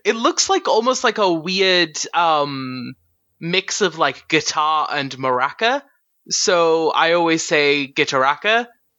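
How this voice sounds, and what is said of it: Accent that drops final R sounds. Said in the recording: “that's just my accent though... I'm not much for pronouncing R's on the end of things.”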